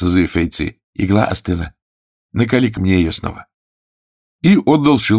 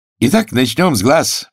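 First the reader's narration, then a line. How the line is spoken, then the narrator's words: Cheerful remark. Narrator (Russian): бодро заметил первый старший брат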